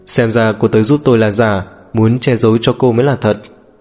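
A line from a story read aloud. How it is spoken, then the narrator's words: Smiling. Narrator (Vietnamese): Niêm Mễ Ngạn mỉm cười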